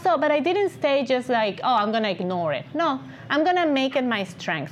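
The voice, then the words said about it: Distinctive recognizable accent. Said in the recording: “self-conscious about my accent ... afraid and ashamed of my accent, now it's my signature ... You hear my voice, you're probably gonna recognize it”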